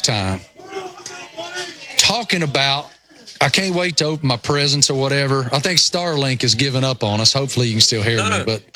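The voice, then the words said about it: Thick rural Appalachian accent. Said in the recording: “I am such a hillbilly redneck that you, it's unbelievable how thick my, you know, rural Appalachian accent is”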